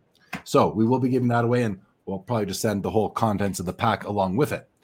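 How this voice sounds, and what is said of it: Strained, worn-out voice. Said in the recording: “as you can tell, I can't talk anymore. ... Time for some chamomile tea. ... I will give my voice a rest.”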